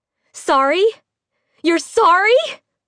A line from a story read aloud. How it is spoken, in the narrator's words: she cried, the tears flowing with the fervency of her rage